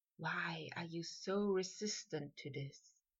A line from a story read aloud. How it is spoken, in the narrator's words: Malfoy whispered